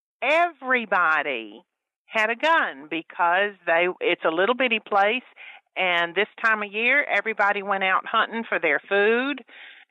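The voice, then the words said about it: Southern US accent, Louisiana. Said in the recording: “I have an accent. I wasn't raised up here. When I was a little girl, I lived in Grayson, Louisiana.”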